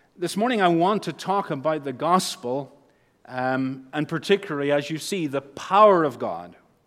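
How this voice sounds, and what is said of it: Northern Irish accent. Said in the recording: “With my accent back home, I would say the power of God. I'm stretching it now into two syllables as the accent changes... We say in Northern Ireland and in the Scots-Irish”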